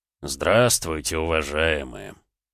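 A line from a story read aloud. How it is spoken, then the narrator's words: Unexpectedly deep bass voice. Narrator (Russian): неожиданно густым басом произнес всадник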